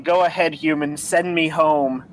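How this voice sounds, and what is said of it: Deep, scary demon voice. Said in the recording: “In my in my deepest, scariest, scariest demon voice”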